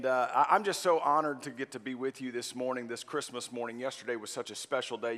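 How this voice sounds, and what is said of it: Worn-out, strained voice. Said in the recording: “You can probably hear it in my voice. I think I left it out all out on the field yesterday”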